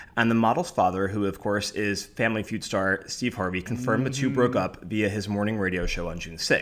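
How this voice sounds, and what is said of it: Usual voice. Nothing is said of it.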